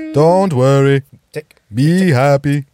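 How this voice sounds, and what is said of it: Put-on Jamaican accent, singing. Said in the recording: “doing a white Jamaican voice.”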